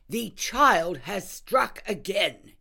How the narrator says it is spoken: he cried

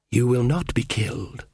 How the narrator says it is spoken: she whispered

